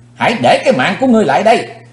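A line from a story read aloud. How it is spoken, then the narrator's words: Shout. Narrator (Vietnamese): tiếng hét đó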